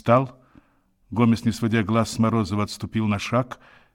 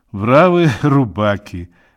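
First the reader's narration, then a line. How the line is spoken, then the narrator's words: Laughing. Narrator (Russian): Равик рассмеялся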